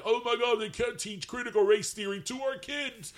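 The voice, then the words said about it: Imitates another person's voice. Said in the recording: “I like when you do the voice, you sound like Elizabeth Holmes.”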